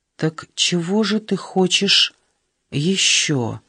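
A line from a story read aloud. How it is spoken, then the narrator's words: Tender question. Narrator (Russian): нежно спросил он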